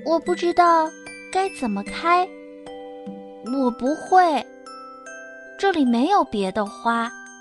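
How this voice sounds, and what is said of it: Soft, quiet voice. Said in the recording (Chinese): “小声”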